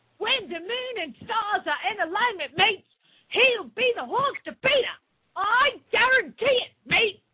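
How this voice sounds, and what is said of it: Put-on Australian accent. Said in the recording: “you should have done that with an Australian accent ... I'm the worst. I'm the best accent doer of all time.”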